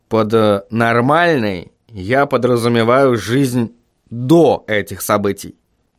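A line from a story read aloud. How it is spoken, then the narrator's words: Plain. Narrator (Russian): ответил Вильям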